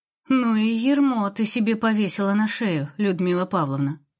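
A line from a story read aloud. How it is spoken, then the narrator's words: To herself, sighing. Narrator (Russian): сказала сама себе и вздохнула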